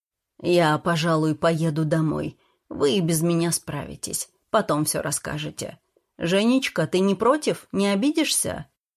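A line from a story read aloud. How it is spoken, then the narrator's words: Thoughtful quiet statement. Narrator (Russian): Петр задумчиво и молчаливо заявил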